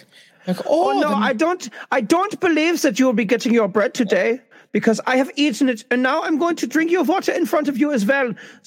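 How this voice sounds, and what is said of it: Put-on German accent. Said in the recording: “Do your German accent.”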